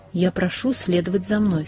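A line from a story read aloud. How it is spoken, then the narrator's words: Firm and calm. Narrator (Russian): сказал он твердо и спокойно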